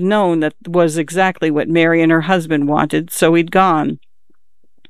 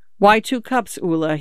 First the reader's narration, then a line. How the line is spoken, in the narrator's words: said